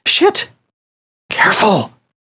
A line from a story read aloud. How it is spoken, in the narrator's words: whispered Justin